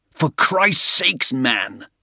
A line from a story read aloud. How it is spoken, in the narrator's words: Soames growled, in exasperation